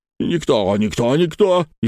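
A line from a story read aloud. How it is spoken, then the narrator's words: Frightened yelling. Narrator (Russian): испуганно завопил он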